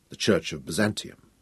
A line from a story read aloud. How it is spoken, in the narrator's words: Nicholas pointed out quietly